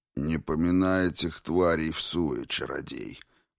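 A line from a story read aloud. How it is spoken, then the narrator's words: Nearby grumbling. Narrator (Russian): проворчал кто-то рядом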